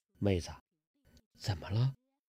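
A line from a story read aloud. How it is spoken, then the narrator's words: Low voice. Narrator (Chinese): 完颜康低声地说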